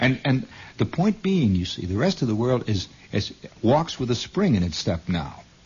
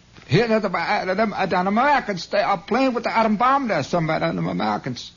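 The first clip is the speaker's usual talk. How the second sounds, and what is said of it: Vague Middle European foreign accent. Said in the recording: “You notice I make all of them vaguely Middle Europa accent. That's just foreign accent. That doesn't mean Argentina, just foreign accent.”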